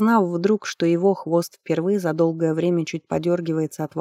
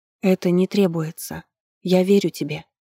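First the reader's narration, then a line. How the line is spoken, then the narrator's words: Soft. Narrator (Russian): мягко сказала жрица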